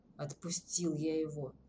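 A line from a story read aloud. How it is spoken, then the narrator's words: Reluctant grumble. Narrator (Russian): проворчал Тимур, неохотно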